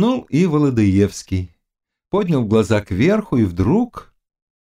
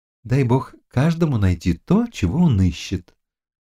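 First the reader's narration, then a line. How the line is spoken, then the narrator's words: Sighing. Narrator (Russian): сказала, вздохнув, Ануся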